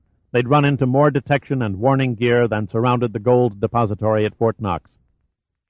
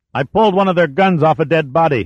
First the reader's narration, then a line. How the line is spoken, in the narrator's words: he shouted above the din